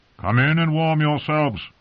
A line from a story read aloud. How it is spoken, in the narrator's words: a man's voice called out